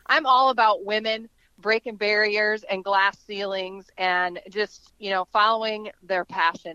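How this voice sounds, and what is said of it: Excited, energetic voice. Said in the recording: “You can hear the excitement in my voice.”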